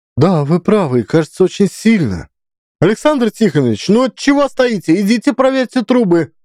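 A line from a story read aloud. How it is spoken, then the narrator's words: Shrill bark. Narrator (Russian): визгливо рявкнула Федоровна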